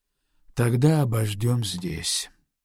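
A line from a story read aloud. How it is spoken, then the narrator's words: Exhausted, flat voice. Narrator (Russian): Это было сказано в 10-й раз, и тем же изнуренным и бесстрастным голосом произнес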